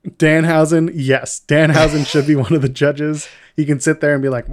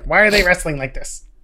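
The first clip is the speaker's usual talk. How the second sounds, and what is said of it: Danhausen impression. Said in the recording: “That's a really good Danhausen impression.”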